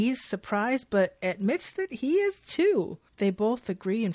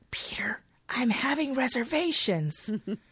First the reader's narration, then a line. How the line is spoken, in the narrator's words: She whispers to Peter